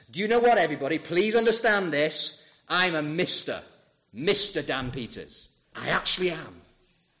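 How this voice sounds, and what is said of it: Very loud, dramatic voice. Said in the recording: “in a very loud, dramatic voice”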